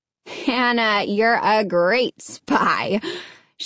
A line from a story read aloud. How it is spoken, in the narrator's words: she laughed